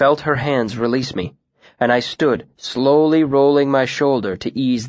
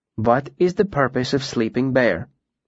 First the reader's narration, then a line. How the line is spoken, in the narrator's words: she asked calmly